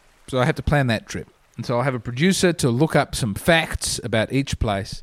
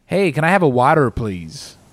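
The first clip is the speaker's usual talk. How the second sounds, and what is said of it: Put-on American accent. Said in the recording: “My American accent is getting a lot better over here.”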